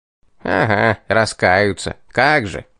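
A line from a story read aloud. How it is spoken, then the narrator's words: Disbelieving snort. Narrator (Russian): фыркнул явно не поверивший мне бес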